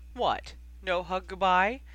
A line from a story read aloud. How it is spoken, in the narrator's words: George called out from across the shop, grinning mischievously